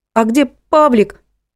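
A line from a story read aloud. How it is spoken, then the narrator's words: Squeaky voice. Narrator (Russian): пропищала Леночка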